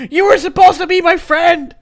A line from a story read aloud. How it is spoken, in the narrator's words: yelled